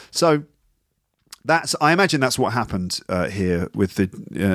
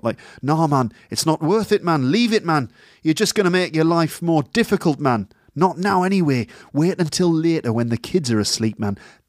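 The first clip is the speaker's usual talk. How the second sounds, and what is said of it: Soft put-on Geordie accent. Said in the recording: “that nice soft Geordie accent he's got ... That was a Geordie accent, by the way.”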